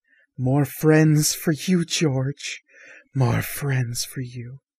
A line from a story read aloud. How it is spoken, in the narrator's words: she giggles quietly to herself, saying